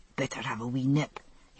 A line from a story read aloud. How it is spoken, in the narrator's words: he whispered to me